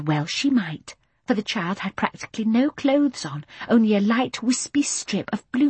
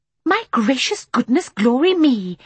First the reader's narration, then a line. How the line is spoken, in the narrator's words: exclaimed Mary Poppins